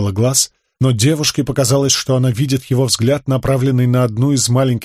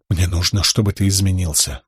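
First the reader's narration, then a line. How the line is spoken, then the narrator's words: Whisper. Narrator (Russian): прошептала ему Шалан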